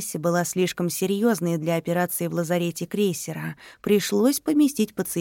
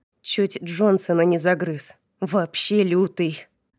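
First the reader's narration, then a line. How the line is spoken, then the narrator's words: Short chuckle. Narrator (Russian): хохотнул Дин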